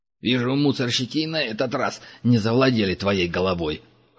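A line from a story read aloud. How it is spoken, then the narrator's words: Snorting. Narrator (Russian): хмыкнул Край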